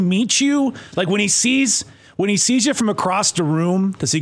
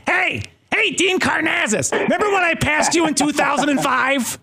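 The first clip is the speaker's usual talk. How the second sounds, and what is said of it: Imitates another person's voice. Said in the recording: “I do a slight Andy Jones and Wilkins impersonation... he sounds just like him”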